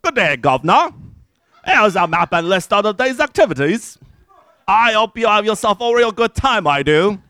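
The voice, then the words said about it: Fake Cockney accent. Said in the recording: “a fake Cockney accent”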